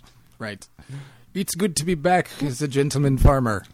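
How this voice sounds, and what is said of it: Put-on accent. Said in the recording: “Use the accent we told you.”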